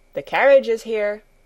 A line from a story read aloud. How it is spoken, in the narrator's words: someone called out